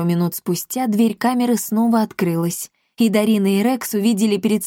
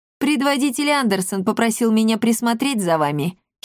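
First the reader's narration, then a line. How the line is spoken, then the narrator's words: Cat giggling. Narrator (Russian): хихикнул кот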